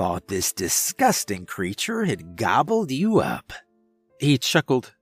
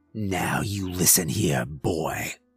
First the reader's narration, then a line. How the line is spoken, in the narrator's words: he snarled